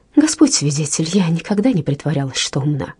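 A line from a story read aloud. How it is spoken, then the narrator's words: Sudden calm, humble tone. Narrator (Russian): Миссис Луна внезапно сменила тон и сказала очень спокойно и смиренно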